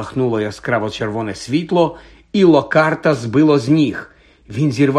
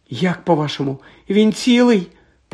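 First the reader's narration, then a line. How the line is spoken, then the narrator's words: Muffled squeak. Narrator (Ukrainian): пропищала вона, прикриваючи пальцями рот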